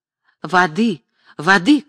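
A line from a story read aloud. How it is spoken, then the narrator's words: Shouting. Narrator (Russian): кричал Марк Семенович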